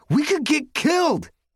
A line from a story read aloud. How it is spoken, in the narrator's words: yelled